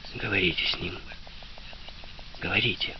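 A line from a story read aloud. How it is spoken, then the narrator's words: Whisper. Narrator (Russian): прошептал Шрей, обращаясь к Анне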